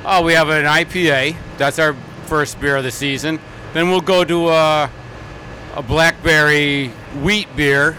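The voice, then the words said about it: Chicago accent. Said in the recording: “What's with the Chicago accent?”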